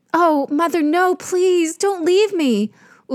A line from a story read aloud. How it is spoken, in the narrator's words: Uruk cried